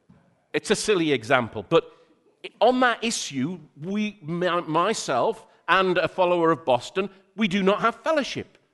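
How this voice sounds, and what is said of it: Geordie accent. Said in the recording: “my Geordie accent's come out a little bit more this time”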